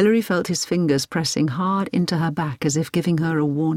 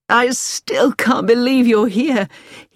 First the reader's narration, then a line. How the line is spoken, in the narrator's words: he said with an excited little laugh